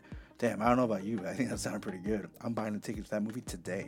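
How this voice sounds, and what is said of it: Usual voice. Nothing is said of it.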